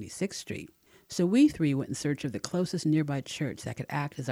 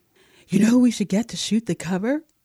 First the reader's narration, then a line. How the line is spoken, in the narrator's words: gushed excitedly